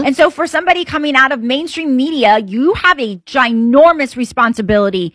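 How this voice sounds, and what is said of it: Regional accent when worked up. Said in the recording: “when you really get worked up, I hear the accent coming out.”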